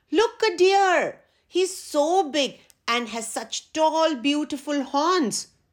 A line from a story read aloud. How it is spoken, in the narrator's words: The letter E looked all around and suddenly yelled out